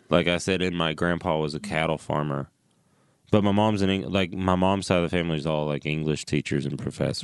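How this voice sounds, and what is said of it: Strong Southern US accent. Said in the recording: “You have a very present Southern accent.”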